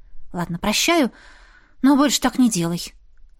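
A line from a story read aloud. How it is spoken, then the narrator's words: Breathy exhale. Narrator (Russian): выдохнула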